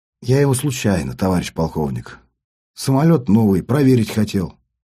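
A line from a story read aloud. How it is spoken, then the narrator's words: Quiet, embarrassed. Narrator (Russian): смущенно ковыряя носком ботинка пол, я негромко сказал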